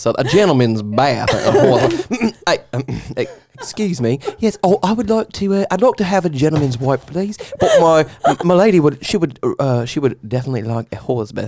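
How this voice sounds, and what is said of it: Put-on UK accent. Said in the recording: “Do it in like a really like UK accent.”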